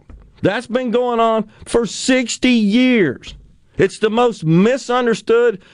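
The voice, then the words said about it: Yelling, upset. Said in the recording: “I'm sorry for yelling. I'm sorry about getting upset.”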